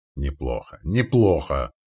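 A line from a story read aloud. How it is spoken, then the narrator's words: Grumbling. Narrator (Russian): проворчал тот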